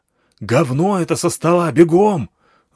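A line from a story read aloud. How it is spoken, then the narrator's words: Yelling. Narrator (Russian): заорал я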